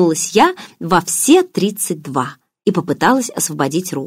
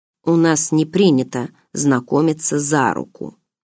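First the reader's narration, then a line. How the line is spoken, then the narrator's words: Quiet. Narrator (Russian): тихо произнес барс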